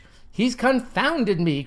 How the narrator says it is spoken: cried the liberal lapdog

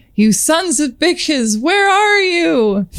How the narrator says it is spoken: he screamed

